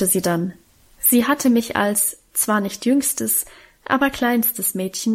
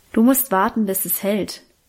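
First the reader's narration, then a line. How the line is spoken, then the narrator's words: Plain. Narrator (German): sagte Guste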